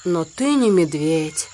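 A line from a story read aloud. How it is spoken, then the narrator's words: Sad reply. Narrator (Russian): грустно ответил Балу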